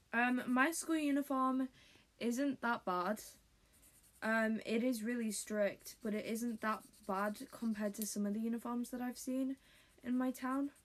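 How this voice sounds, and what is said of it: British accent. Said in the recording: “If you couldn't tell by my accent, I am British.”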